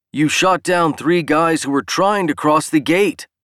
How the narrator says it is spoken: Dan roared, throwing his own hands up in agitation

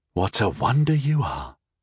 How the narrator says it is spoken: I breathed

